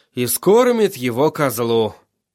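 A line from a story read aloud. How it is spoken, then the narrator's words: Tired. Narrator (Russian): устало сказал Тирион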